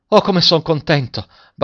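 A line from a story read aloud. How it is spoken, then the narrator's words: Stammering. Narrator (Italian): balbettò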